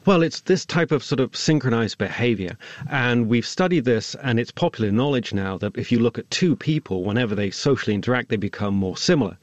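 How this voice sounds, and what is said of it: Mixed Swindon and Californian accent. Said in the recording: “my Swindon, Californian accent”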